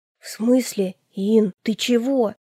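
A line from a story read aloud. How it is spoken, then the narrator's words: Breathless exclamation. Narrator (Russian): выдохнула она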